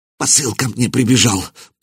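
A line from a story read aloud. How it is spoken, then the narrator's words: Fearful muttering prisoner. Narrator (Russian): пробормотал пленник, потея от страха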